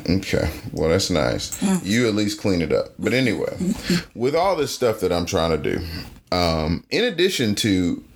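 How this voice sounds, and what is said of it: Southern twang. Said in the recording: “You just have a southern twang”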